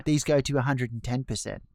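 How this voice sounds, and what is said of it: Exaggerated mock British accent. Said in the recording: “in a dumb British accent.”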